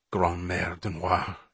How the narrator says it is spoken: she muttered fervently

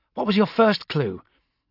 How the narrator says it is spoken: Amberley snapped

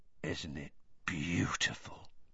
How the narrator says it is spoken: said Hagrid softly

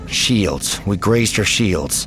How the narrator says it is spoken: Leia muttered

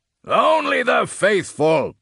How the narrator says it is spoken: Pheros roared

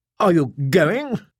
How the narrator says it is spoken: Norn asked anxiously

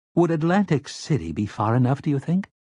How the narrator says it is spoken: Tower asked timidly

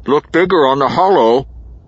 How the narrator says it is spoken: Mag said, his voice muffled by his hand

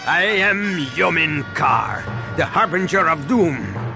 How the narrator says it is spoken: the warrior said with a sinister laugh

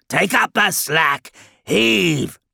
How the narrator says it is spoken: bellowed Squatumus and Bubondubon together

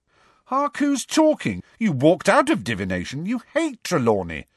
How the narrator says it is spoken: said Ron indignantly

